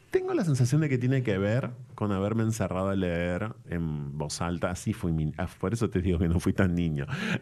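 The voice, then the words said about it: Announcer-like voice tone and timbre. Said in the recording (Spanish): “esta voz que tenés hoy en día... tenés voz de locutor, el tono, el timbre”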